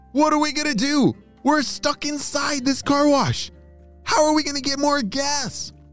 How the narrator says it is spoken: shouted Harlan

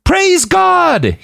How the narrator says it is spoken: he screamed out

